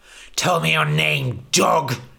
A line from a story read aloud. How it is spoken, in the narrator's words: he spat